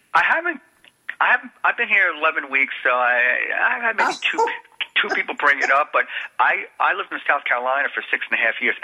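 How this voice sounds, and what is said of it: New Jersey accent. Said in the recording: “you took that accent with you ... where'd you get that accent? ... I just moved from New Jersey”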